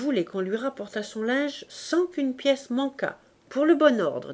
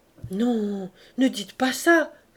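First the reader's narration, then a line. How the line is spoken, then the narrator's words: Distressed cry. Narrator (French): s'écria Gervaise, désolée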